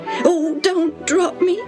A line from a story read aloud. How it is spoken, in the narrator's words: Tim pleaded in a shaky voice